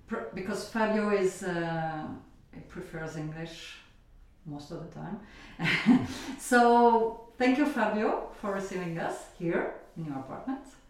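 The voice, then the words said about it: Strong non-native accent in English. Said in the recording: “Excuse our accent, it's terrible”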